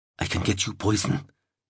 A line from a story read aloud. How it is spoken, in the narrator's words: he whispered